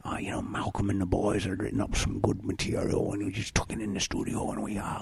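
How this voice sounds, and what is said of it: Put-on Scottish accent impression. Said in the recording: “I could do Brian Johnson sometimes ... He's Scottish, though. That's a different accent ... Is Sean Connery here as well?”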